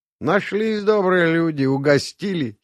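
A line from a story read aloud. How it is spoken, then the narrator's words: Giggling. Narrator (Russian): хихикнул Вальдес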